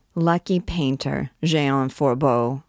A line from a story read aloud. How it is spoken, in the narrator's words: said Gringoire with a heavy sigh